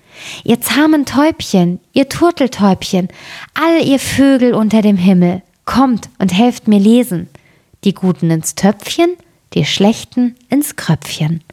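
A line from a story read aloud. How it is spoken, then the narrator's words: Called out. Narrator (German): Das Mädchen rief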